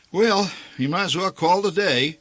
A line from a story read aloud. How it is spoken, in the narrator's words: announced the old man